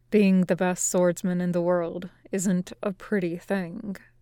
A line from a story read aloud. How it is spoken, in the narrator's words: Zoro says in a low voice, only for Luffy's ears